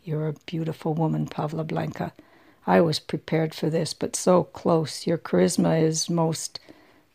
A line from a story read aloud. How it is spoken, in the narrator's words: he said softly